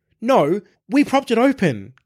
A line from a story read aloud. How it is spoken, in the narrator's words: cried out